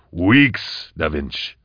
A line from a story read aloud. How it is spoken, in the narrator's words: said Koblika firmly